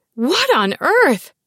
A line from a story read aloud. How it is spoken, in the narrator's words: Mom blurted before losing her composure completely